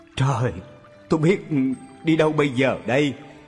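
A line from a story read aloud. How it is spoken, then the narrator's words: Moaning. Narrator (Vietnamese): Anh ta rên rỉ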